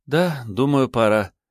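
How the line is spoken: Sighing woman. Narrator (Russian): вздохнула она

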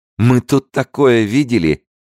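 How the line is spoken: Laughing loudly. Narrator (Russian): расхохоталась Никоя

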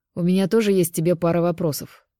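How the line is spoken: Snort, gym teacher. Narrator (Russian): хмыкнул физрук

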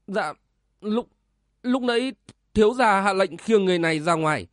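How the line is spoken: Trembling reply. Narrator (Vietnamese): Một trong bốn tên đại hán run run đáp

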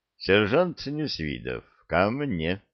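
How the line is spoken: Quiet command. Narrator (Russian): негромко скомандовал

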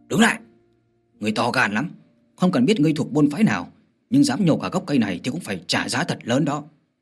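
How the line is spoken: Loud shout. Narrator (Vietnamese): Hắn quát to

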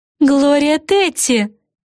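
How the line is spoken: Exclaimed. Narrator (Russian): воскликнула Флафанора

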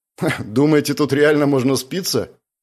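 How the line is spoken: Scoffing snort. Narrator (Russian): хмыкнул Андрей

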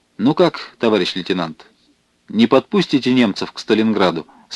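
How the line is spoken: Plain. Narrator (Russian): спросил Степан Федорович

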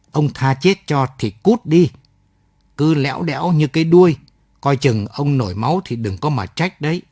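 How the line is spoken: Hissed through teeth. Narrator (Vietnamese): Hoành nói rít qua kẽ răng

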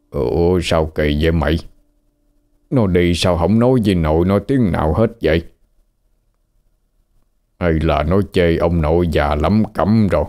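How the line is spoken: Old man muttering. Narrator (Vietnamese): Ông lão lầm bầm

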